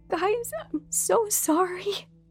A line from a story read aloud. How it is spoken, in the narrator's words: Sherry said through choked sobs